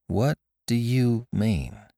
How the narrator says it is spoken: She asked slowly

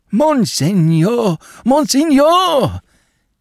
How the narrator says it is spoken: he cried, in a quavering voice

